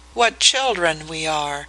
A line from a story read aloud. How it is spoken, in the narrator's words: she murmured